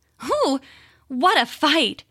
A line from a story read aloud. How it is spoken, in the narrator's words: she said, panting as though she were very tired